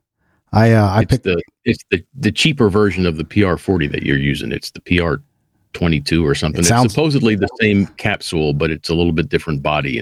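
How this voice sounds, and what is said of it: Smooth radio voice. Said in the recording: “you have a great voice, dude. You have a great voice ... It's just a smooth radio voice.”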